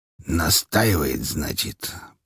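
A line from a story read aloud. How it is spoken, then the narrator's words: Muttering. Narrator (Russian): пробормотал Григорий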